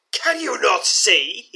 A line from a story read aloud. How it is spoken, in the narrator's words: roars